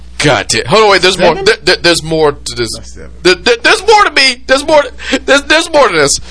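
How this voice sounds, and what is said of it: Usual voice. Nothing is said of it.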